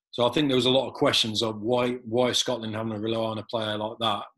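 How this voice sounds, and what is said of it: English accent. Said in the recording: “I was English born, obviously English accent”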